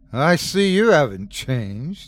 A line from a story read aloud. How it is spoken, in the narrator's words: Andrew said, laughing